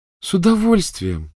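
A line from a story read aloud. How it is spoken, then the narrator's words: Joyful reply. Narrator (Russian): радостно откликнулась Полумна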